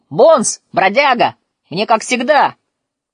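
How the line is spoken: Shout. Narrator (Russian): Роджер крикнул

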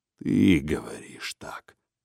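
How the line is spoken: Barely audible. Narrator (Russian): едва слышно промолвил он

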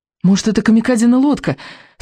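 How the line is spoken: Hopeful exclamation. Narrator (Russian): с надеждой воскликнул Икинг

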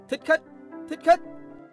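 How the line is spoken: Guards crying out together. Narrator (Vietnamese): Bọn thị vệ đồng loạt kêu lên

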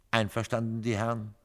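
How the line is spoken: Plain question. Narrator (German): fragte

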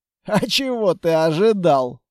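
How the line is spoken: Snorting. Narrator (Russian): хмыкнул Строгов

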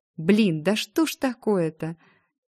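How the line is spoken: Nervous giggle. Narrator (Russian): Я нервно хихикнула

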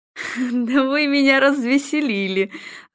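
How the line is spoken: Laughing. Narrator (Russian): Ройтер рассмеялся

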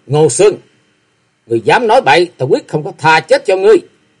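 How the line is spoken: Angry loud shout. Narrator (Vietnamese): Kế Quan tức giận quát to một tiếng

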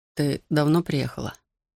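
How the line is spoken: Barely audible mouthed question. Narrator (Russian): Едва слышно одними губами спросил

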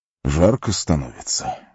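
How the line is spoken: Breathed out. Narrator (Russian): выдохнул он

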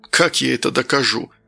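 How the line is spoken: Weary. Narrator (Russian): устало глядя в окно, произнес Данил

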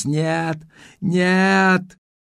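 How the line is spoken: Full-voiced scream. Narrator (Russian): она завопила во весь голос

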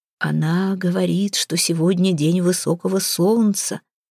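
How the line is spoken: Whisper. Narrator (Russian): прошептал ему Модельф

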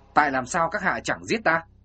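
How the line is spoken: Hissing. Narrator (Vietnamese): Kinh Vô Mạng rít giọng

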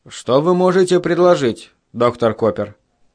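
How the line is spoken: Calm question. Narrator (Russian): спокойным голосом спросил Гэри

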